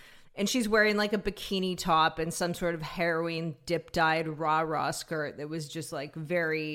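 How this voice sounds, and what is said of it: Usual voice. Nothing is said of it.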